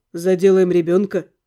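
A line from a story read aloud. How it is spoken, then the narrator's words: Blunt, rude interruption. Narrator (Russian): обрубил он, как всегда, грубо и прямолинейно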